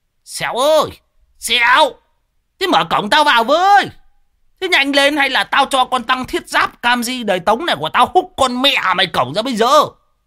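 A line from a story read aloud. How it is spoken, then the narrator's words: Bellowing. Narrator (Vietnamese): Lão Đồng chõ mõm vào mà gào lên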